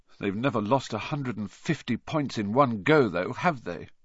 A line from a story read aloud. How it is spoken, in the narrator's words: said Harry miserably